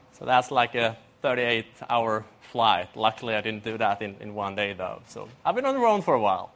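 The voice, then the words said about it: Swedish accent. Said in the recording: “As you can hear from my accent, I don't live in Australia. I'm from Sweden, Europe”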